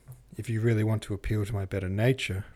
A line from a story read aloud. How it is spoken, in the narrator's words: replied Philip